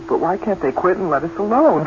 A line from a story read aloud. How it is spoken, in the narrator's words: Carl mumbled